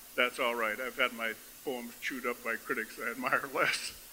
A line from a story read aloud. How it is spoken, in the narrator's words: paused with perfect comic timing and said